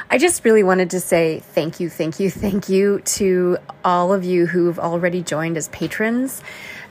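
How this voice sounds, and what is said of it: Slightly sick-sounding voice. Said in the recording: “I'm slightly under the weather, so you might hear that in my voice.”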